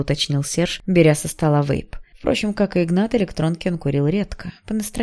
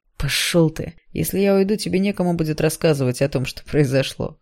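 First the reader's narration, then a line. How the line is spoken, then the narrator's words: Smirking grunt. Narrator (Russian): хмыкнул Серж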